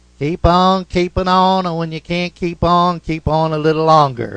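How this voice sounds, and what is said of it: Imitated Georgia Southern accent. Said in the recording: “in that Georgia accent, which I'll try to imitate”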